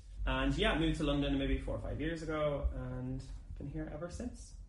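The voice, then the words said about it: Irish accent. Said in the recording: “I'm originally from Ireland, as you can probably tell. Hopefully you can tell my accent.”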